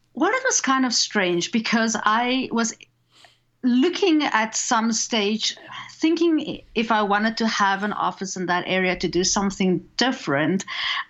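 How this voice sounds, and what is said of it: South African accent. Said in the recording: “I have the same accent as his parents ... I grew up in South Africa ... this is the accent that I have”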